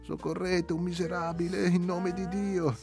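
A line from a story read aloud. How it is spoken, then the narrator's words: Pleading poor man. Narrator (Italian): disse il poveretto con voce supplicante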